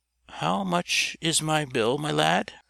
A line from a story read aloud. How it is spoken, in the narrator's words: our hero inquired in a trembling voice